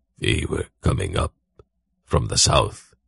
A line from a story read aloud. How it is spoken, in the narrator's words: Zakath whispered back